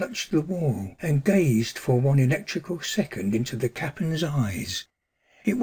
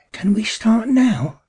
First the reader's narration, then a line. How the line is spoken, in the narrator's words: asked breathlessly